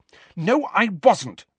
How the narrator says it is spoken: she said angrily

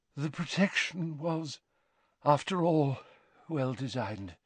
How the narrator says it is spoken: said Dumbledore faintly

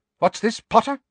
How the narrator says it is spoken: said Professor McGonagall sharply

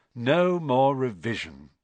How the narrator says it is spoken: sighed happily

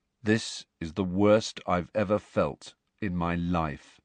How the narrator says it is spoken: he said in a dull voice

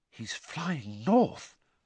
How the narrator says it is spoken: Hermione whispered

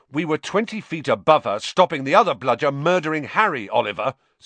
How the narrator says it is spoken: said George angrily

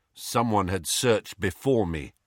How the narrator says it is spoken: said Harry

